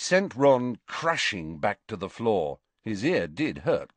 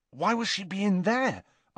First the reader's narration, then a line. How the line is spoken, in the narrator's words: asked Ron anxiously